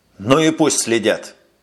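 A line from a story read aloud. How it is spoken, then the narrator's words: Angry, barely controlled. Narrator (Russian): сердито сказал майор, готовый вот-вот потерять самообладание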